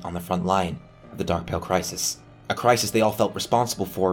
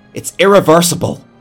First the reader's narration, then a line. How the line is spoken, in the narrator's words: Robin shouted